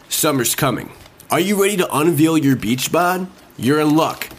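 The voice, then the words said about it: Announcer-style radio voice. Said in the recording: “Are you doing your radio voice?”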